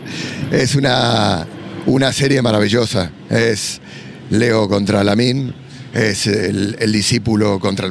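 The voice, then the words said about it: Argentine Spanish accent. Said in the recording (Spanish): “Solamente con el acento, ya saben que el rival es Argentina ... como argentino”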